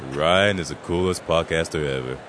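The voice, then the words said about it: Put-on cool-sounding voice. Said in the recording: “in that really cool voice.”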